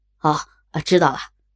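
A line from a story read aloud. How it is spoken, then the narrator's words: Hurried. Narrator (Chinese): 马俊急忙说道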